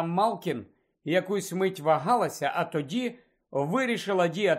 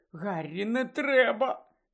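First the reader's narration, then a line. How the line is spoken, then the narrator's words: Moaning plea. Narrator (Ukrainian): застогнала Герміона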